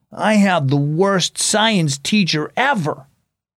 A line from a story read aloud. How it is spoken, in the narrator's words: He grumbled